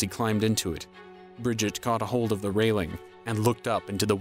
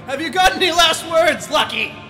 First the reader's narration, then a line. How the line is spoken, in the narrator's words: He called out to her over the roaring destruction